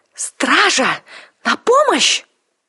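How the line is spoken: Shouted. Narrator (Russian): закричала она

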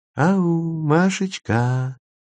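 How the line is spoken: Honeyed calling voice. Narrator (Russian): позвал он медовым голосом

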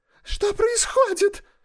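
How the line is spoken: Shrill piercing shriek. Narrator (Russian): повторяла она пронзительным визгливым голосом

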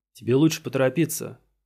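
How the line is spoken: Plain. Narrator (Russian): сказал Мэттокс

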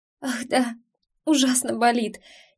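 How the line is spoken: Faked slight sob. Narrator (Russian): чуть всхлипнула я, для достоверности

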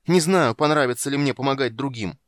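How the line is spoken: Shouting, losing control. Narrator (Russian): Теряя контроль над собой, закричал Полин

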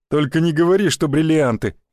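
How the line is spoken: Smirking snort. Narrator (Russian): Хмыкнул второй

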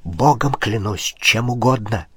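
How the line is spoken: Whispered plea. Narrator (Russian): шепотом воззвал немец

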